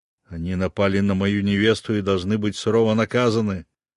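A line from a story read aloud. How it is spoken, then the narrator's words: Growled. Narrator (Russian): прорычал я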